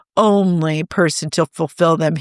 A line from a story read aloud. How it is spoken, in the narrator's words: he growled